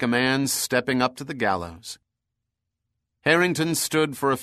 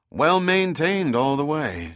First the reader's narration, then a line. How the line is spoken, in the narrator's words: said Harrington